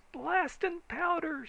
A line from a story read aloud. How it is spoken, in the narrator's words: screamed old man Braxton